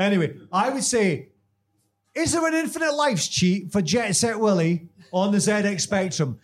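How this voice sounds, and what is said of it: Usual voice. Nothing is said of it.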